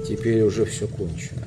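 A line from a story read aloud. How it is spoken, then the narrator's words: Sad, quiet. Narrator (Russian): промолвил Фаун, грустно покачивая головой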